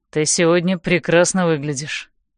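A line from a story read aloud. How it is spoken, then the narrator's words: Calm. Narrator (Russian): спокойно говорит он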